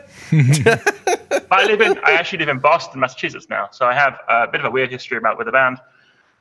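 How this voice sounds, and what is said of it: British accent. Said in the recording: “I'm British, as you can hear by my voice”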